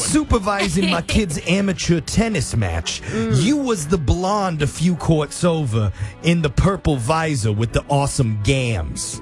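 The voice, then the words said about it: Put-on New York accent. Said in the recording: “this guy's a New York accent ... I didn't know that was a New York accent”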